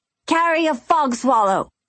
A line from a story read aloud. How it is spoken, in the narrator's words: he snapped back